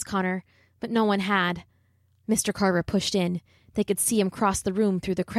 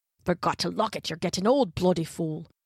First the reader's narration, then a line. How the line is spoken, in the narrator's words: he was grumbling to himself